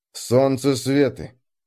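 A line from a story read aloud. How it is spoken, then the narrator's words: Continued gloomily. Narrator (Russian): мрачно продолжил я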